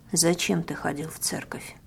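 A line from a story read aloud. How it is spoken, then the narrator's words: Gloomy question. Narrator (Russian): Мрачно интересуюсь я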